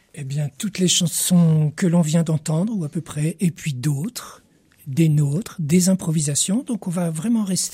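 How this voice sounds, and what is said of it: French-Canadian accent. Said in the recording (French): “Vous avez une voix qui fleure bon toujours les couleurs de l'accent français, de la Nouvelle-France”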